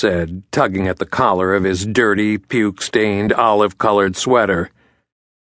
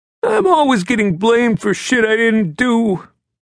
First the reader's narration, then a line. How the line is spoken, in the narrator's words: he whined